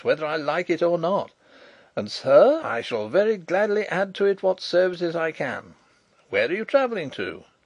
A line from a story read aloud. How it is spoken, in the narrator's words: laughed